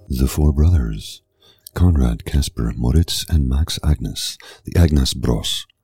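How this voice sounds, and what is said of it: Attempted Scandinavian-style accent lilt. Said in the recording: “I was really going for sort of a Nordic, Scandinavian-style lilt there. I'm sure I fell flat on my face”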